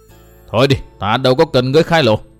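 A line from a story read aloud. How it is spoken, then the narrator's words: Stern voice. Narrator (Vietnamese): Tốc Đào nghiêm giọng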